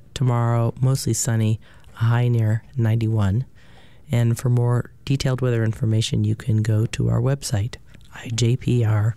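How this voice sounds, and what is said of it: Hoarse voice. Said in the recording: “I think my voice is hoarse. ... Too much breathing of dust.”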